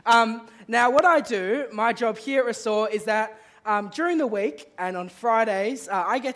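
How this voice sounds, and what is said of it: Strained, sick-sounding weird voice. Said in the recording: “I'm a bit sick and my throat is kind of dying on me. So if my voice sounds a bit weird”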